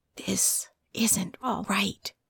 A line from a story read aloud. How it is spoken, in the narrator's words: something that whispered